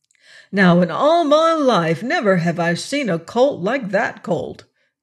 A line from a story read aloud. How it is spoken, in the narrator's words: cried Boots